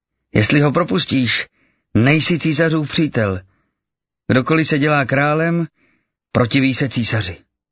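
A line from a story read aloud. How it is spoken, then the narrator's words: Shouting crowd. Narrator (Czech): Židé křičeli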